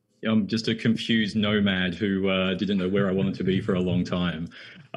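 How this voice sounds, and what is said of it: Noticeable foreign accent. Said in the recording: “you've got an accent. I can hear that. ... Yes, it's my accent”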